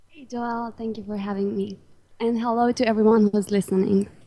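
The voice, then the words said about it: Romanian accent. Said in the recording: “I love your accent. So you're from Romania, right?”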